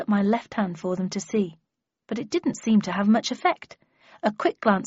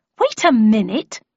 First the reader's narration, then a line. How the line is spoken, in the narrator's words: I exclaimed, almost wanting to laugh at the situation